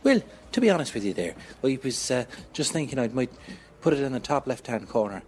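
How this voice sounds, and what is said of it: Put-on Irish accent, silly voice. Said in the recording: “in that silly voice, in that accent ... the Irish ... channel out the Irish in me”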